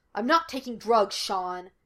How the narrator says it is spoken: Gus snapped

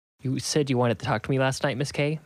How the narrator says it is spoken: I said

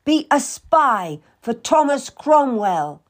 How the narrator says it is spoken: Anne shouted

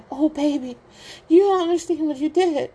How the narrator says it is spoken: the woman cries

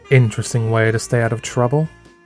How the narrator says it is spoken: Nicholas said

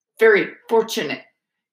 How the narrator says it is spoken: he said stiffly

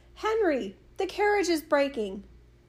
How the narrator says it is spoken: He cried

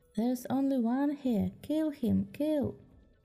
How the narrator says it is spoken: a monkey shouted

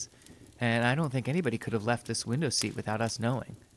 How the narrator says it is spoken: Gorman in a trembling voice

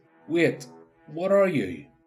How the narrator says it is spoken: query was cut off

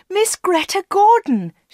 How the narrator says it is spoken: shouted Anna

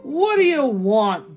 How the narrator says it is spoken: Borko grumbled

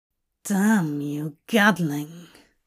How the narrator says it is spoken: he growls, but Aziraphale knows it to be a good growl

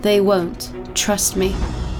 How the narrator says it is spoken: Tyler coldly responded

